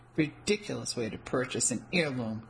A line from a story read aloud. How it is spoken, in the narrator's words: the woman behind the glass counter murmured disgustedly